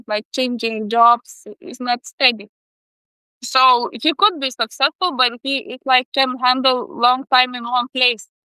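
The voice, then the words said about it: Noticeable accent. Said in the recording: “It's like my accent.”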